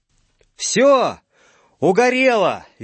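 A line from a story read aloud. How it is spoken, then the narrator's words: Cheerful shout into phone. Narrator (Russian): весело закричал в трубку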